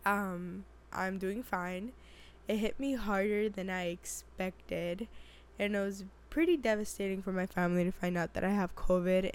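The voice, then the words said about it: Raspy, hoarse voice. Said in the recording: “tell by my voice. Yeah, I am struggling with this sexy voice of mine ... my voice being this raspy”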